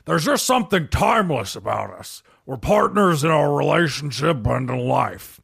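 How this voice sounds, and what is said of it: Imitates another person's voice. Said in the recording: “do my Dennis Quaid impression”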